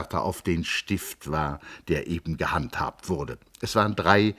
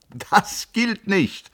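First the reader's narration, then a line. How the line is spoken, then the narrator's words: Shouting over laughter. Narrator (German): rief in das verdiente Gelächter hinein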